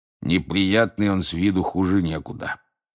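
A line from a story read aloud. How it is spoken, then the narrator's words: Grumbling. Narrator (Russian): проворчал мужчина у стойки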